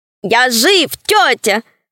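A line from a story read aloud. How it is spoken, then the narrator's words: Joyful shout. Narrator (Russian): радостно закричал Свен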